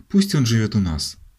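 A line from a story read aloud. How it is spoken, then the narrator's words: Pleading tone. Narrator (Russian): просительным тоном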